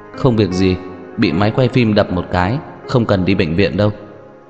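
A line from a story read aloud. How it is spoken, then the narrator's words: Slightly trembling explanation. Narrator (Vietnamese): giọng nói của Hứa Gia Mộc hơi run run giải thích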